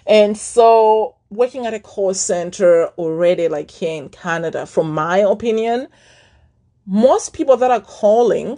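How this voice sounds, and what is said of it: Thick accent. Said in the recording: “I have a thick accent. I know that. And my accent was even thicker back then. Like super thick, thicker.”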